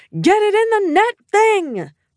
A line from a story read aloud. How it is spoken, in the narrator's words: The crowd was screaming, I could hear Steph over everyone yelling